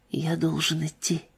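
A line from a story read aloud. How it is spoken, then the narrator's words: Whispered. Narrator (Russian): прошептал он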